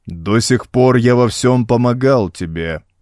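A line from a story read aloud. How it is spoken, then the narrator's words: Booming stony metallic echo. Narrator (Russian): ответил идол зычным и звучным каменным голосом, что металлическим эхом отразился от 7 светильников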